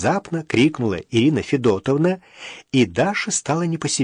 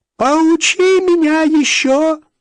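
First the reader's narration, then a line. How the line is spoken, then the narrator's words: Shrill old woman snapping. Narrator (Russian): также визгливо огрызнулась старуха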